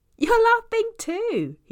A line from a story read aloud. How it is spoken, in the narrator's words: he shouts